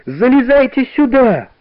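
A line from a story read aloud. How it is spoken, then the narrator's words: Worried children shouting. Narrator (Russian): кричали ребята, с беспокойством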